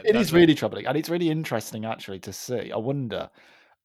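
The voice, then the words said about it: Birmingham (Brummie) English accent. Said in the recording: “I've still got a Brummie accent, and you know, people, when I go to London... they will always pick up on the Brummie accent... most Brummies like me do not”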